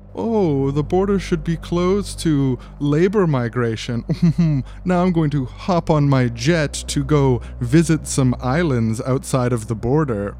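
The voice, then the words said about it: Mock voice of a wealthy elite. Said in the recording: “my quick impression of a conservative in name only, a wealthy elite”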